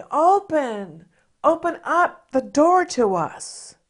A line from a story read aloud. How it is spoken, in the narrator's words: banged on the door and cried